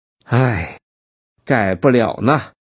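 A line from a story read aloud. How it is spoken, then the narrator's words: Sighing. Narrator (Chinese): 围裙叹息一声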